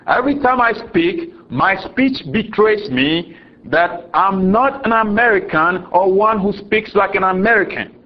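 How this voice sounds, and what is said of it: Ghanaian accent. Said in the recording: “My accent proves me to be a Ghanaian, not an American. ... I cannot hide it. ... Your accent is different.”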